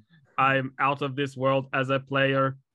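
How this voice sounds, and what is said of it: Put-on outer space alien accent. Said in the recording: “I feel like I need to do an accent ... this is my outer space accent”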